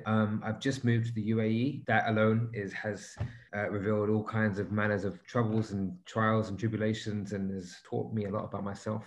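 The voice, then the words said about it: London accent. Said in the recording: “I am actually from London, so the accent might give me away a little bit.”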